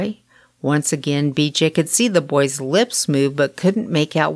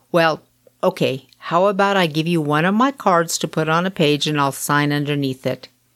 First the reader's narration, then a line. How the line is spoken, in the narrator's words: with a sigh he said